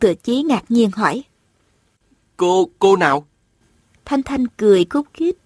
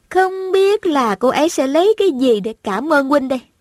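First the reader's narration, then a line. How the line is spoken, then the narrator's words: Smiling. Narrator (Vietnamese): Thanh Thanh mỉm cười nói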